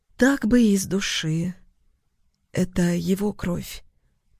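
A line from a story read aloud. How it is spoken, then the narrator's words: Hoarse, lost. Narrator (Russian): произнесла она сипло, потерянно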